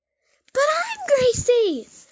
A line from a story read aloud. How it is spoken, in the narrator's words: Gracie squeals